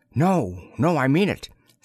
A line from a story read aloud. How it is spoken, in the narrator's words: said Choresus earnestly